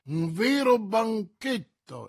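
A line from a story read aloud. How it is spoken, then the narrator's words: Exclaiming. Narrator (Italian): esclamò Coquenard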